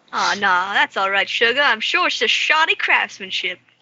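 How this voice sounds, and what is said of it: Character voice with put-on accent. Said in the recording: “What accent is that?”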